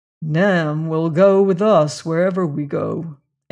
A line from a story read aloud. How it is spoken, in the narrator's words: answered Leonard grimly